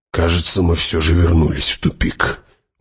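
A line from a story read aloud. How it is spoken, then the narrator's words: Gloomy mutter. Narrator (Russian): угрюмо буркнул Хават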